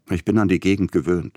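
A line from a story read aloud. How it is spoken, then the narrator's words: Plain. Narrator (German): sagte Peter Iljitsch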